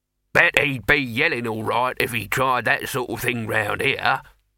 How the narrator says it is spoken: said Throat cheerfully

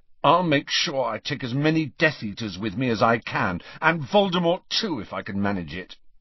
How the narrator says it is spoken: he said fiercely

